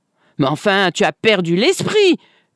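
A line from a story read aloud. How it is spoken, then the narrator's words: Shouted. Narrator (French): hurla Madame Schmiel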